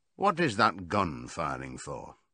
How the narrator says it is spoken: said Boxer

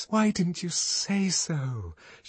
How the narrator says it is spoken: She whispered

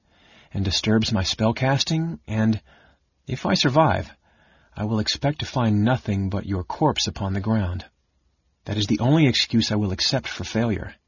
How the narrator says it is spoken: the mage said in a gentle, pleasant voice

